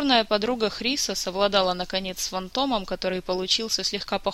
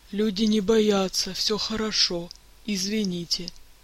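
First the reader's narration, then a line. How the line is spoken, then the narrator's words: Booming hoarse voice. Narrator (Russian): гулким простуженным голосом произнесла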